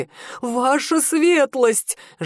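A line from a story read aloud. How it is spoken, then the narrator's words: Man's plaintive exclamation. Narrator (Russian): жалобно воскликнул мужчина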